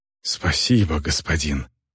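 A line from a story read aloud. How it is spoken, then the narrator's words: Breathed out. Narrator (Russian): выдохнула она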